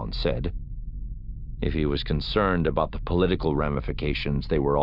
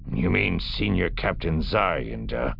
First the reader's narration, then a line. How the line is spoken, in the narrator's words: Bakif growled